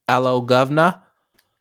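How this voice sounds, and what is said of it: Exaggerated put-on British accent. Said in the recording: “That's too much ... British accent”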